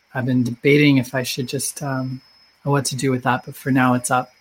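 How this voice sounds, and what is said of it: Slightly off, strained voice. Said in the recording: “My voice is still a little wonky”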